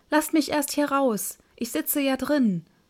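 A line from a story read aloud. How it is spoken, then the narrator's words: Frightened high-pitched call. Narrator (German): Da wurde dem Däumling Angst, dass er mit heller Stimme rief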